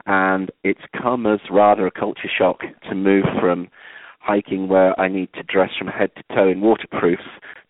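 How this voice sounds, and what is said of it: Yorkshire English accent. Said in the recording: “as you can probably tell from my accent, I'm not a native Arizonan ... I moved out from Yorkshire”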